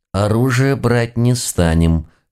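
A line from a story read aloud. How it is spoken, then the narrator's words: Warning through clenched teeth. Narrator (Russian): сквозь зубы предупредила глава нашего экспертного отдела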